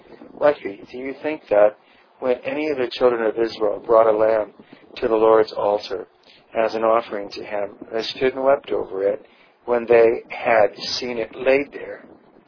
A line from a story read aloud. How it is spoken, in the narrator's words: he said very gently